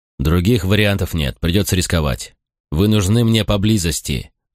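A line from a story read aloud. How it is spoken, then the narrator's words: Plain. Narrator (Russian): ответил я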